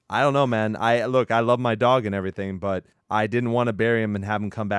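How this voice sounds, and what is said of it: Usual voice. Nothing is said of it.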